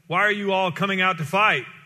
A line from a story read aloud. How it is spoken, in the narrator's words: Goliath stood and shouted a taunt